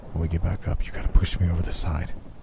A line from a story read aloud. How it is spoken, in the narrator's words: he whispered